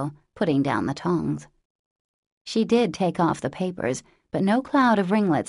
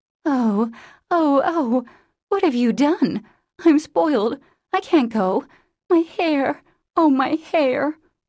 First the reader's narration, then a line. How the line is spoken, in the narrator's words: wailed Meg, looking with despair